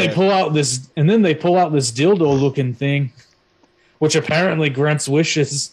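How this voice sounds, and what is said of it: Usual voice. Nothing is said of it.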